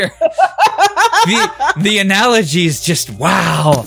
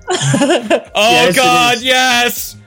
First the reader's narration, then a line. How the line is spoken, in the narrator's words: He yelled back